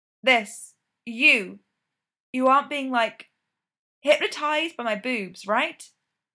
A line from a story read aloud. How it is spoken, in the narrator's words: Styles blurts out